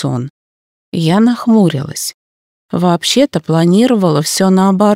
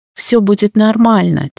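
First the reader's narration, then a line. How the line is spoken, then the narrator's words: Muttered. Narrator (Russian): тем не менее буркнула я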